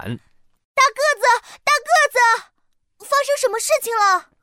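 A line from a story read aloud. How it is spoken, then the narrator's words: Group shouting. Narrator (Chinese): 大家对着大个子大喊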